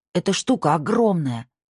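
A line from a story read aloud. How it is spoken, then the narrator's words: Exclaimed. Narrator (Russian): воскликнула Ясмин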